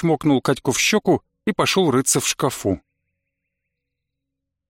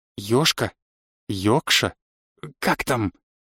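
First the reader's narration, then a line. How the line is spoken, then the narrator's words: Whispered question. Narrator (Russian): шепотом спросил я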